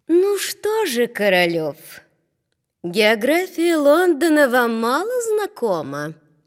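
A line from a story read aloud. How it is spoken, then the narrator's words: Sweet angelic question. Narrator (Russian): Алла Сергеевна спросила ангельским голосом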